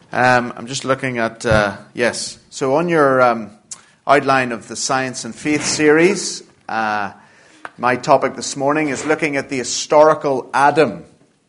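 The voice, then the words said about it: Northern Irish Belfast accent. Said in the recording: “as you can hear from my accent, I'm not from around here ... I'm from uh, Belfast in Northern Ireland ... that's why the accent sounds a little strange to your ears”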